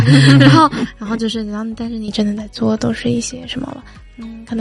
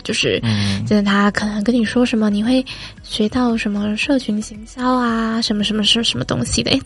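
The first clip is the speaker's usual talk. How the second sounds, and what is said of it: Suddenly speaking very quietly. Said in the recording (Chinese): “突然讲话很小声是怎样？”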